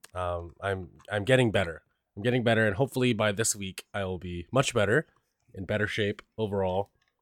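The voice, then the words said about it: Voice altered by a cold. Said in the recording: “I got a cold ... My throat started feeling itchy ... You can tell from my voice it doesn't sound the same.”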